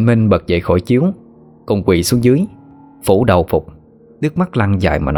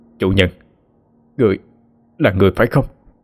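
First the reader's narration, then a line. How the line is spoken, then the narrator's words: Stunned stammer. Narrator (Vietnamese): Trịnh Minh điến người giây lát, đoạn mới lắp bắp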